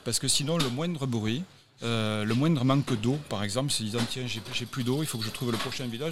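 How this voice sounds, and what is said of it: Southwestern French Toulouse accent. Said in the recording (French): “son accent de Toulouse, là-bas du sud-ouest”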